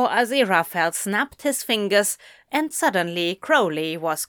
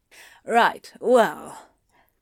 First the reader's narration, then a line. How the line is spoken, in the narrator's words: Anthony sighed